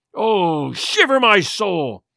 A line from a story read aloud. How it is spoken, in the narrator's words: he cried